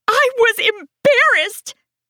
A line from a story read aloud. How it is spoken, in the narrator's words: I yell